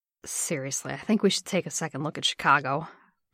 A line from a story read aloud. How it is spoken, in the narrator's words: Bucky muttered